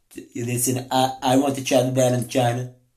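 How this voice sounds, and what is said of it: Imitates another person's voice. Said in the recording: “I'm not that good at Donald Trump impersonation.”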